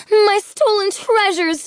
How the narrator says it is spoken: scream

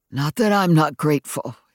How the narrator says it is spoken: he wheezed

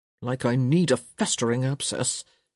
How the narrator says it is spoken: he muttered

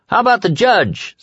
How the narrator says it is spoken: someone shouted

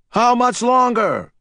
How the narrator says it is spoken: Painter hollered

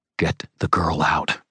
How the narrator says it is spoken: I said in a low, intense voice

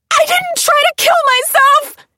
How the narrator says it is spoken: she screamed, struggling to be free

